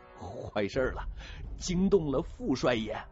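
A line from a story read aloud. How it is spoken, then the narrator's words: Terrified, trembling voice. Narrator (Chinese): 侯富宝脸色雪白，惊慌的腿肚子转筋，颤声说道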